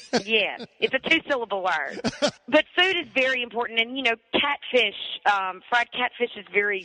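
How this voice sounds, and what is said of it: Mississippi accent, stretched vowels. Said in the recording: “the Mississippi accent "pie" kind of gets stretched out a little bit”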